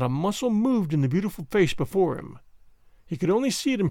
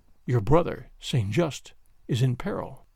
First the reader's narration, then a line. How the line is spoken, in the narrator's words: he said quietly